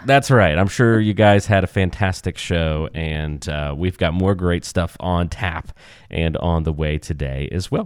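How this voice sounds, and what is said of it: Slightly nasal, congested voice. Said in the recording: “You might still be able to hear a bit of nasaliness in my voice ... it's a little out of tune today”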